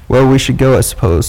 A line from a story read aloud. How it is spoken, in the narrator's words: said Rick